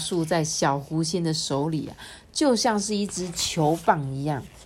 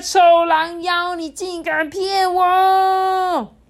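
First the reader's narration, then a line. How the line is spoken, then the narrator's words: Roaring. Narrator (Chinese): 吼着说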